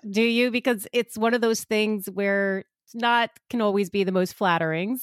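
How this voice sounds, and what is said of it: New York Long Island accent. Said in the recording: “I try to hide my accent, but I'm sure most people will know I'm from New York ... I'm from Long Island, which gives it away even a little bit more ... every part of New York has a specific little twang”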